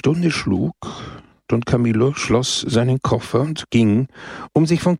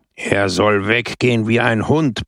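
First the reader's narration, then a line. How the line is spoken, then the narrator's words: Roaring. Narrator (German): brüllte Brusco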